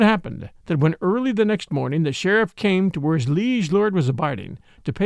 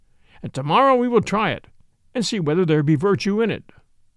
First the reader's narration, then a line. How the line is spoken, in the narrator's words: quoth the king merrily